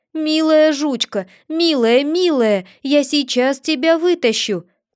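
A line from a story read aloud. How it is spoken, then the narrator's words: Shouting tenderly. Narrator (Russian): кричал он ей, точно она понимала его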